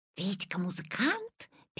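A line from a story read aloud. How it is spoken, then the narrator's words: Classmates whispering together. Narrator (Russian): перешептывались Витины одноклассники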